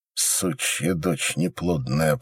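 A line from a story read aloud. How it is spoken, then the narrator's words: Hissing through teeth. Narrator (Russian): прошипел сквозь зубы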